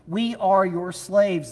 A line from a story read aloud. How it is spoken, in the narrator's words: they said